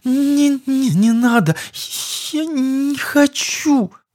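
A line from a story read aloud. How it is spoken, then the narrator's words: Moaning in pain. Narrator (Russian): Превозмогая страдания, простонала девушка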